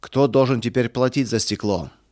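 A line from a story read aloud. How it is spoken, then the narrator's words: Shouting. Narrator (Russian): кричал Эрих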